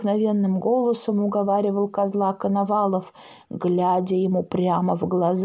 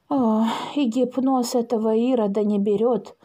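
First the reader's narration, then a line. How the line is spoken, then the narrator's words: Sighing old woman. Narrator (Russian): вздохнула баба Клава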